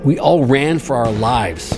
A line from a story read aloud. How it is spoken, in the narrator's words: said Jorgensen